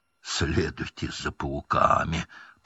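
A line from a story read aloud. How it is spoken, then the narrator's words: Hoarse wheeze. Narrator (Russian): прохрипел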